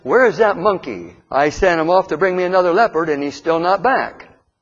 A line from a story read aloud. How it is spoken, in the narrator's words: the dog loudly said